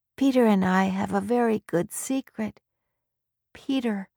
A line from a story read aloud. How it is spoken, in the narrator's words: said weakly